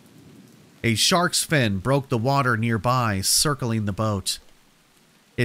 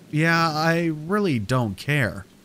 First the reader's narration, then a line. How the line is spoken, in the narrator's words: I said